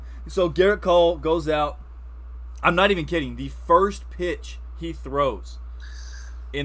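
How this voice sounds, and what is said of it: Usual voice. Nothing is said of it.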